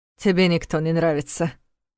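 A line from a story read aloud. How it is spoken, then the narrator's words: Smirking snort. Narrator (Russian): хмыкнул Войтых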